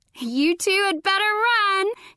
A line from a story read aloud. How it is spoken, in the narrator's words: she yelled, laughing